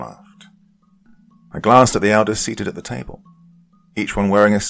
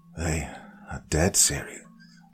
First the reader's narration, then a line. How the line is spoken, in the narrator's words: said quietly